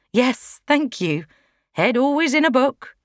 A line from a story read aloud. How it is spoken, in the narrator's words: laughed